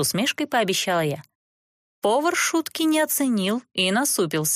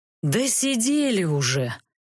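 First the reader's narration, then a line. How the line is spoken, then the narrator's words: Sighing. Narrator (Russian): вздохнул архимаг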